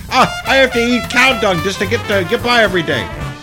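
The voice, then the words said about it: Badly done put-on Indian accent. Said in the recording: “I know, it's a horrible accent”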